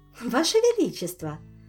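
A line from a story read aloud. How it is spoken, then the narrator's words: Cheerful. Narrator (Russian): весело сказала Ольга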